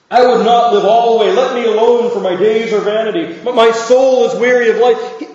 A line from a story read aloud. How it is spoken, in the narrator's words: Job stands there and he cries these words